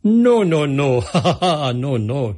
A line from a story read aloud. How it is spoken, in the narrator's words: laughed